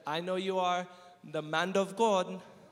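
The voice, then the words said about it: Imitated African accent. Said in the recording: “She said in her beautiful African accent”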